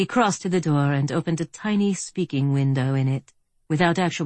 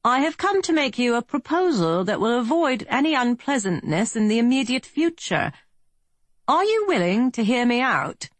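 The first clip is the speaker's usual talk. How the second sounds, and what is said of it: Well-to-do British accent, pleasant tenor. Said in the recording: “This accent was British, quite well-to-do, its tenor pleasant.”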